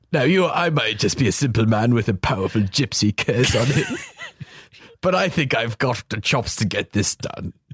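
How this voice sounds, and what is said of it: Imitates another person's voice. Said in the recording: “I'm very impressed you held that impersonation together”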